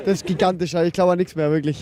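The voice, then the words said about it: Hoarse, strained voice. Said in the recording (German): “Meine Stimme ist auch daheim geblieben”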